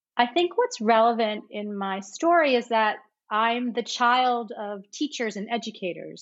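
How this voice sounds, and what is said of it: American New York accent. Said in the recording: “People might recognize from my accent, I am from the States ... I'm from New York, near New York City.”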